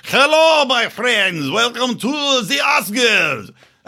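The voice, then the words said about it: Put-on Russian accent drifting French. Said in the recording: “I don't know what accent that was. It started off Russian and went into French.”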